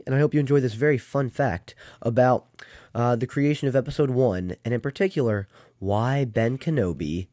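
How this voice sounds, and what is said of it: Scratchy voice from a cold. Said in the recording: “I have a bit of a cold, so just bear with me as you listen to my scratchy voice. I know it's not my pristine self, my pristine usual”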